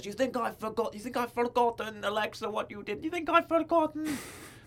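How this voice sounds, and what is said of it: Put-on Scottish accent imitating someone. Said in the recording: “that's my Scottish Nikki voice ... Three different Scottish accents ... she's a Scottish lass”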